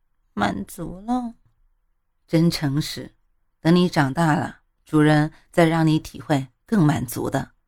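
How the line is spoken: Shy, very quiet. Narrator (Chinese): 猫喵喵娇羞的小小声的说

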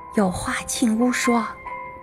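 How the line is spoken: Hurried hushed voice. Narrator (Chinese): 我连忙压低嗓音，用中文对他说

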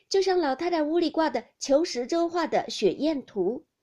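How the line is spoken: Group laughing. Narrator (Chinese): 众人都笑道

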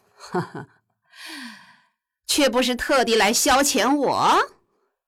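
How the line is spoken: Laughing. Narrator (Chinese): 郑屠笑道

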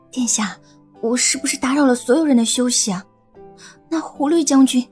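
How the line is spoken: Whispered question. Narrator (Chinese): 小声的问道

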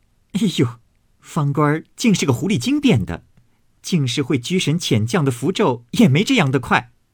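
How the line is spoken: Amused laughing. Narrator (Chinese): 晴雯不觉好笑，遂笑道

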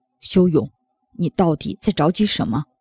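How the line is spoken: Stern scolding. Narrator (Chinese): 秦阳厉声训斥

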